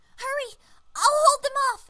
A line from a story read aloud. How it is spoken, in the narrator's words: she screamed in a rare moment of bravery